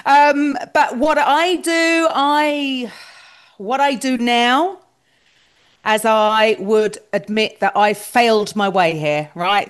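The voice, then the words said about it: Non-American English accent. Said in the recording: “the Americans seem to love my accent, but I'm sure the Brits would just think it's really not that great”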